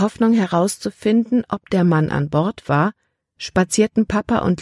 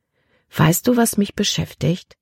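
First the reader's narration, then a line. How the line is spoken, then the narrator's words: Plain. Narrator (German): sagte Libby schließlich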